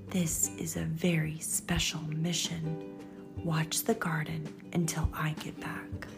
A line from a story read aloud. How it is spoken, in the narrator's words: She whispered into his ear